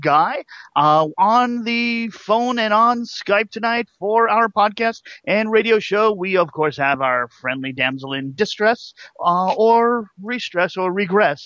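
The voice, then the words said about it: Exaggerated radio announcer voice. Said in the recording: “Not only is your announcer voice horrible”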